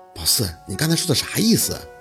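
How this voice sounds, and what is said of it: Quiet, hushed question. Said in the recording (Chinese): “小声的询问”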